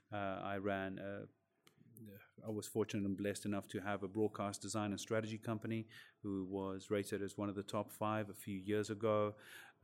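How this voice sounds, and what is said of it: Non-British foreign accent. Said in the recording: “You have an accent, but it's not a British accent.”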